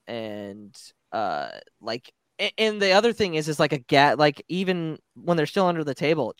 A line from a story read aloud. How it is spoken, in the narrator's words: Chuchi gasps